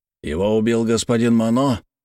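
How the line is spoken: Hoarse, heavy accent. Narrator (Russian): Голос бойца был хриплым, а акцент ужасным

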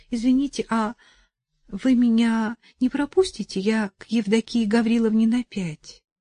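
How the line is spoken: Timid question. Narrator (Russian): Она робко спросила

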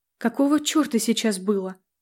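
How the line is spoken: Mumbling, struggling for words. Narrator (Russian): пробормотала, с трудом вспоминая слова

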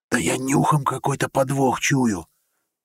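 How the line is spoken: Hiss. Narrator (Russian): прошипел Сол

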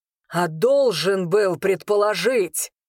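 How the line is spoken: Growled. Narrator (Russian): рыкнул Арвин

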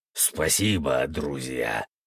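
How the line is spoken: Deep bass, werewolf. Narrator (Russian): пробасил высший оборотень

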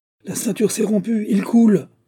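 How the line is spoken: Exclamation. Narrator (French): s'écria-t-elle

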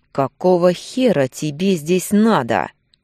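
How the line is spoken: Tense, through teeth. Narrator (Russian): процедил сквозь зубы, боясь сделать лишний вдох

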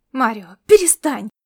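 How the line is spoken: Disgusted exclamation. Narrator (Russian): воскликнул, не скрывая своего отвращения

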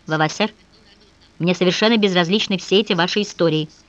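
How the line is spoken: Calm, measured. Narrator (Russian): неожиданно для самой себя Софья спокойно и размеренно произнесла

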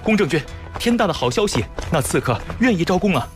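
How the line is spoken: Hurried, urgent shouting. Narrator (Chinese): 风风火火地 嚷道

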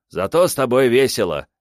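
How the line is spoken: Amused snort, spirit. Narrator (Russian): хмыкнул дух

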